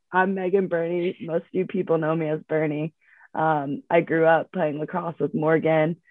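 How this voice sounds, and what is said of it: Voice sounds sick, under the weather. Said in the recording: “excuse my voice. ... I'm a little under the weather”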